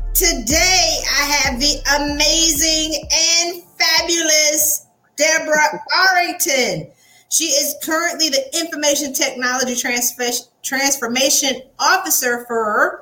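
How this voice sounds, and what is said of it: Southern American accent. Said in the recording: “my Southern accent is coming up ... My Southern has arisen”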